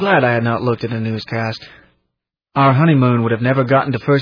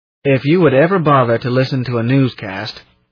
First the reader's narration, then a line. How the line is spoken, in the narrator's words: he grumbled